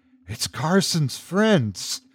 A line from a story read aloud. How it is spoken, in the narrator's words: he whispered under his breath